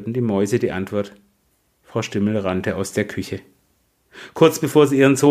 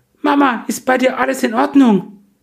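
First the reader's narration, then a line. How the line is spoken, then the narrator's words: Called out. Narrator (German): rief er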